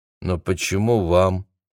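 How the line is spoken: Lifeless question. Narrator (Russian): снова спросила Джессика таким же безжизненным тоном

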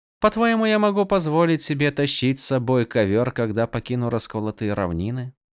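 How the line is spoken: Quiet question, female. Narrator (Russian): Негромко спросила Тин

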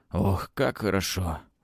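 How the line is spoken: Sigh. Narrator (Russian): вздохнул Палыч

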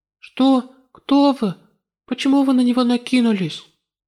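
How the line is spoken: Shocked trembling question. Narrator (Russian): ошеломленный произошедшим, отец Люк дрожащим голосом спросил

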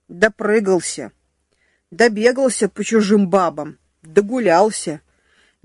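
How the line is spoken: Sudden angry declaration. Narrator (Russian): неожиданно зло заявил дежурный

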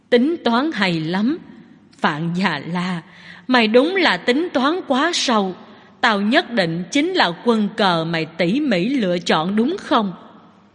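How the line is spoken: Smiling, hoarse voice. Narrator (Vietnamese): Lâm Niệm Từ mỉm cười, giọng nói khàn khàn

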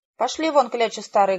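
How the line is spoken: Loud barking shout. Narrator (Russian): гаркнул он

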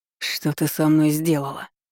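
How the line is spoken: Hoarse, rising rage. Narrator (Russian): с вскипающим бешенством прохрипел

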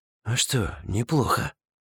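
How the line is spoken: Whisper. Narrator (Russian): Шепотом произнес я

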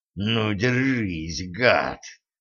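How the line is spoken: Furious hoarse rasp. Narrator (Russian): прохрипел Денис, которого почему-то обуяла неприсущая ему дикая ярость

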